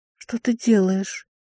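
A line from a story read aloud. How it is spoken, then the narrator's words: Calm breathy. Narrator (Russian): выдохнула, чувствуя странное спокойствие рядом с ним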